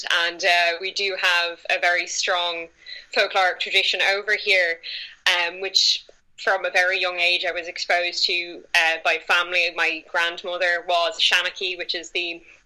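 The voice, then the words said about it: Irish accent. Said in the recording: “If the accent wasn't a dead giveaway, I am from Ireland”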